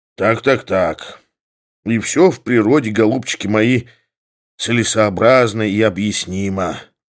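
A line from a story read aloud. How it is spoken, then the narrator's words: Sighing. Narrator (Russian): вздохнул Самойленко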